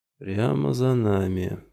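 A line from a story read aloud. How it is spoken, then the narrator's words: Purring. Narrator (Russian): промурлыкал Кауфман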